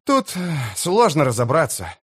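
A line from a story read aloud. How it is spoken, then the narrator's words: Sigh. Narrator (Russian): вздохнул флакон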